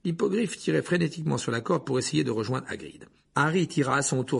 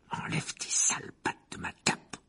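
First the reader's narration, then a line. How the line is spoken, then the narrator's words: Breathy growl. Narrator (French): grogna Harry dans un souffle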